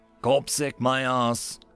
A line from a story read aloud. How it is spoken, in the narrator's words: Nichols grunted